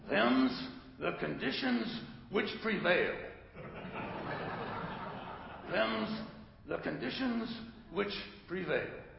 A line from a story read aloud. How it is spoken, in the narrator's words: croaked